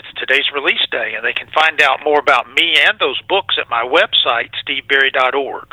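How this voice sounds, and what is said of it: Southern US Georgia accent. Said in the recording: “a little bit of Georgia there. You hear that Georgian accent?”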